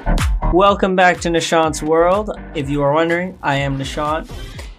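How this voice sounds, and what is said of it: Strained, worn-out voice. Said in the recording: “my voice is a little off today, maybe a little strained ... my voice is still gone from this Sunday”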